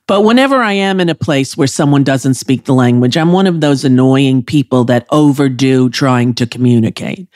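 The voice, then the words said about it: New York accent. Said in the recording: “my New York accent that you love so much”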